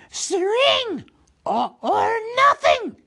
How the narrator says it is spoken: shrieked Gollum

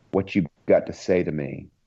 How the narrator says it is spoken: she asked hoarsely

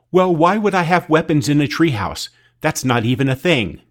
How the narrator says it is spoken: She snapped back

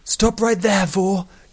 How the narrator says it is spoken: yelled Nuthea

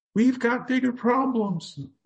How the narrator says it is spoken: Lem had to yell over the incredible and horrifying volley of waves

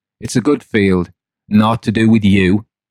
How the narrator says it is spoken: oddly, nervously, and angrily, and replied

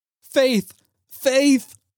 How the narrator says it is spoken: cried the husband

